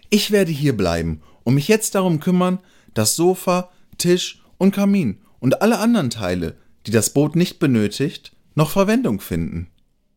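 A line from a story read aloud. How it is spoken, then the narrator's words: Cheerful hare. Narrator (German): freute sich der Hase und fügte fröhlich hinzu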